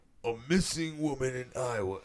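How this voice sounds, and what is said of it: Imitates another person's voice, poorly. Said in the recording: “That was a horrible impression”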